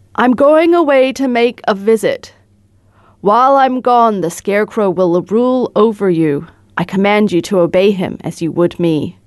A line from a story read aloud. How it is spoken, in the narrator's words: Oz said to all the people in a loud voice